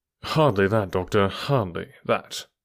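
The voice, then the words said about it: Bland, mild voice. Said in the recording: “in his blandest voice.”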